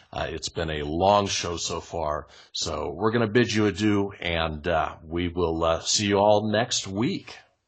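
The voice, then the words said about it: Strained, hoarse, fading voice. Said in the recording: “My throat is sore. My voice is going.”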